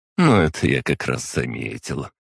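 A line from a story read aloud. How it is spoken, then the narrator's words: Snide smirk. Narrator (Russian): ехидно усмехнулась Дезидерия Вайсмовна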